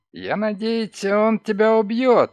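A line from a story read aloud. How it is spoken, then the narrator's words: Sudden cry. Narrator (Russian): скрикнул он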